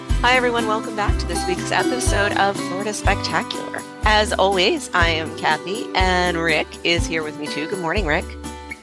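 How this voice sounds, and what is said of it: Polished radio announcer delivery. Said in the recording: “That sounded like a very radio-y kind of introduction. ... you have a good radio voice there.”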